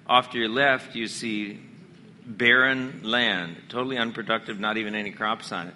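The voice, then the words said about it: Hoarse voice. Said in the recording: “Sorry for the hoarseness there.”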